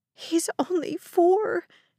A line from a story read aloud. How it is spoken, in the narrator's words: the mother sobbed